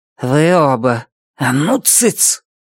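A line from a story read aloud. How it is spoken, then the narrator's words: Hissed. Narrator (Russian): Цветика прошипела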